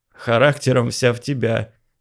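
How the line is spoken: Laughing. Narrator (Russian): смеялся Болдырев

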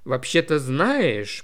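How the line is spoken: Thoughtful. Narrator (Russian): проговорила Алисия, задумчиво глядя

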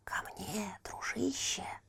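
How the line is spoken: Hissing. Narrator (Russian): зашипел огонь

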